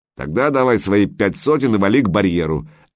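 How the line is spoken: Gruff bark. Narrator (Russian): рявкнул мрачный тип

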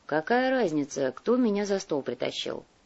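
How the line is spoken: Bitter sigh. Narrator (Russian): горько вздохнул Кортес

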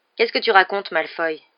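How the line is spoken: Brusque tone. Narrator (French): dit Ron d'un ton brusque

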